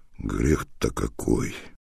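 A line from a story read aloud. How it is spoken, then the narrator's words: Forced out. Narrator (Russian): выдавил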